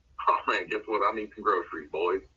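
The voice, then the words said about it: Put-on Southern accent. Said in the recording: “I don't know where that southern accent came from.”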